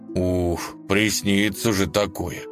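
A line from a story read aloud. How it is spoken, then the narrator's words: Relieved sigh. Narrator (Russian): с облегчением вздохнул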